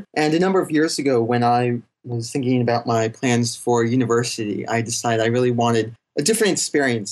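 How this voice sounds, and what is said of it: Non-Australian accent. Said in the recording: “that's obviously not a Melbourne accent that you're talking to us with ... It's not an Australian accent.”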